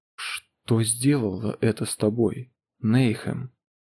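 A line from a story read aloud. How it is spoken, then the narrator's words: Whisper. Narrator (Russian): прошептал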